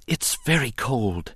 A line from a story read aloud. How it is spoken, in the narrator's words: he managed to whisper